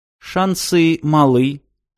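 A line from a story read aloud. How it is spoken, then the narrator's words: Calm. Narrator (Russian): спокойно ответила Роза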